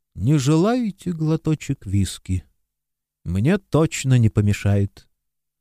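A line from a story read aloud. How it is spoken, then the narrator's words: Quiet. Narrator (Russian): Исидор Смайс тихо сказал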